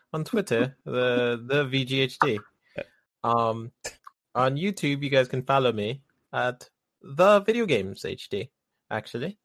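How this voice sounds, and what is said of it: Attempted British accent. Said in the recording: “I'm trying to do the British accent... I got bad at there at towards the end... When you said actually, that was pretty good”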